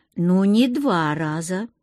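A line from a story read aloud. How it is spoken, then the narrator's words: Mocking. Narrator (Russian): насмешливо обронил командор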